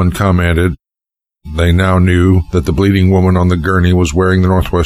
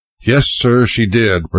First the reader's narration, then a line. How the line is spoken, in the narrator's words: responded the sergeant wearily